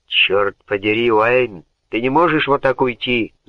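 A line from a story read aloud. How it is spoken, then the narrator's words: Roaring. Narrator (Russian): взревел Бертрам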